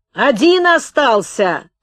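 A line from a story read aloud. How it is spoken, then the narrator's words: Joyful shout, young man. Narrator (Russian): радостно крикнул молодой красногвардеец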